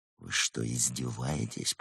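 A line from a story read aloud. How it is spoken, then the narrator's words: Hissed. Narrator (Russian): прошипел незнакомец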